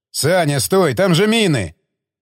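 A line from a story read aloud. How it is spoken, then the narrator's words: Shouting. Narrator (Russian): крикнул Баграмян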